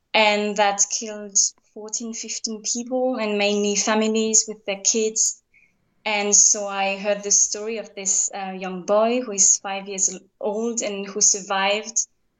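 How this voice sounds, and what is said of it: French accent. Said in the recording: “I think you will hear by my accent. I come from France.”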